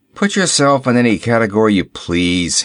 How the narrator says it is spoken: he grumbled

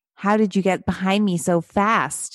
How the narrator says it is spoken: she cried

